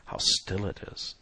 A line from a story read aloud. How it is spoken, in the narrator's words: said in a hushed voice